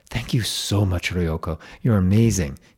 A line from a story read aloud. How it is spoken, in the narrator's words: exclaimed